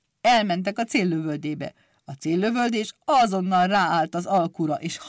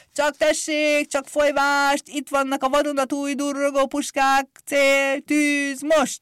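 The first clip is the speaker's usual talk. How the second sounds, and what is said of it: Loud shouting barker's voice. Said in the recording (Hungarian): “harsány hangon kiabálta”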